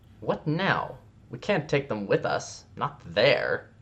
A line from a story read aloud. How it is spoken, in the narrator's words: In a clipped, irritated voice, he said